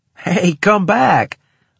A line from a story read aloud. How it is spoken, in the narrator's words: I called, half laughing